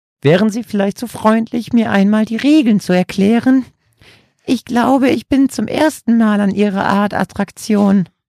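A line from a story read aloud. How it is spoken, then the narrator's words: Squeaky elderly woman. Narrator (German): quiekte die ältere Dame, die kaum über den Tresen gucken konnte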